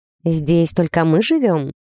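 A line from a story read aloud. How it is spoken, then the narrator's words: Quiet question. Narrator (Russian): тихо уточнила у Милоша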